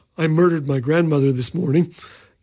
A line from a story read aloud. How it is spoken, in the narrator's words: he flashed his famous smile and said quietly